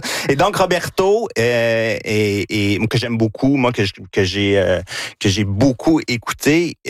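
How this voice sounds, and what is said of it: Regional Victoriaville French accent. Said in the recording (French): “Gina sourit à cause de mon accent... c'est mon accent de Victoriaville”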